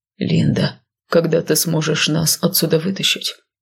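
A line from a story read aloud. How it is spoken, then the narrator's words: Low-voiced question. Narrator (Russian): вполголоса спросил он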